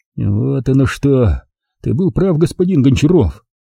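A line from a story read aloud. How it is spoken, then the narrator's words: Grumbling under breath. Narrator (Russian): Пробурчал себе под нос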